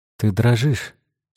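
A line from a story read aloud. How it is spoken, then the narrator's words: Plain. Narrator (Russian): сказал он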